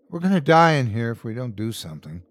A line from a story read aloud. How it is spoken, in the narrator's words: The dad from 1E said sadly